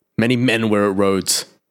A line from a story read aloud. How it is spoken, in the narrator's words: snapped Saliman